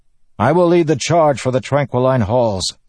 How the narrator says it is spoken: the man shouted

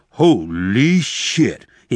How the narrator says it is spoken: he exclaimed loudly

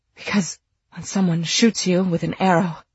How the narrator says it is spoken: he gasped

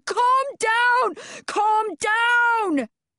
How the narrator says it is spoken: Evaluator One is screaming at the top of her lungs and Glasses is yelling

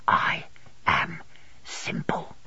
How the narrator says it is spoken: Dick, dropping his voice to a whisper

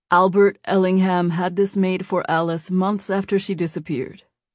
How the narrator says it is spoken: said

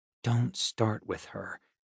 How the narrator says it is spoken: I muttered

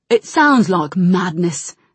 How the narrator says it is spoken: said Gen, growling a little

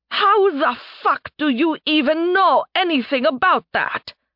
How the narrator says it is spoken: Nerevia shouted

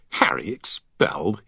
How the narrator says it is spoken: he scoffed

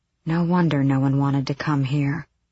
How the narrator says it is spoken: Aelin muttered

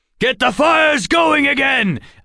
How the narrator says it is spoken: Alex heard Lycan yell

